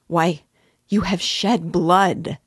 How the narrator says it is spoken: cried Dunya in despair

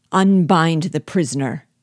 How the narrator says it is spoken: cried Bug Jargal

